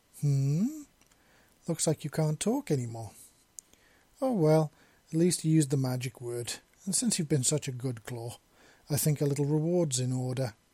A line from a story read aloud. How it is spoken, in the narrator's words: Gregory purred again